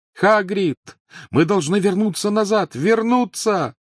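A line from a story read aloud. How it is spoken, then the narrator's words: Desperate shout over engine roar. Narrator (Russian): крикнул он сквозь громовой рев двигателя, отказываясь поверить, что сова убита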